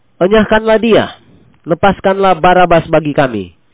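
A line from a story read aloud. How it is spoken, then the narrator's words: Crowd shouting together. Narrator (Indonesian): mereka berteriak bersama-sama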